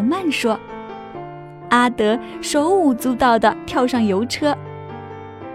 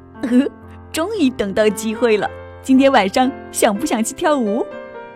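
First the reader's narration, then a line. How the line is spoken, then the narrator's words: Giggling. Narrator (Chinese): 阿德咯咯笑着说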